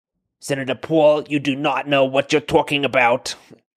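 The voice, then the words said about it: Imitating Anthony Fauci. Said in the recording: “bad Fauci impression. ... I didn't think that was actually too bad.”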